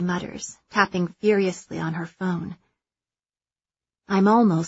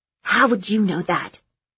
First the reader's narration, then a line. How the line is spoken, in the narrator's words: She hisses